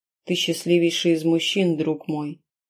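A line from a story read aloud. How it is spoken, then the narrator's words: Quiet. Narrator (Russian): он тихо произнес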